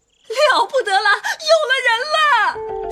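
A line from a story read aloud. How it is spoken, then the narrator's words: Old women clamoring. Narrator (Chinese): 老婆子们也接着声嚷道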